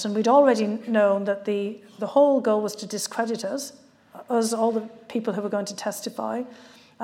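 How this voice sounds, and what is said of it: Speaks with a noticeable accent. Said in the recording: “I've got this accent”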